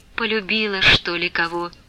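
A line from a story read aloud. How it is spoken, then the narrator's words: Barely audible question. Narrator (Russian): чуть слышно спросила ее Манефа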